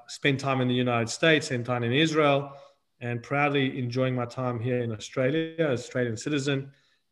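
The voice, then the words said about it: South African accent. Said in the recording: “originally South African born, you might be able to pick that up from the accent.”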